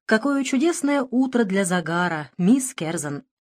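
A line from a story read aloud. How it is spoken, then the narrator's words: Cheerful. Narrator (Russian): Начал я веселым тоном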